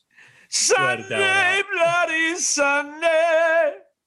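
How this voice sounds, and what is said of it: Imitates a rock singer's voice. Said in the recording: “my Bono impersonation”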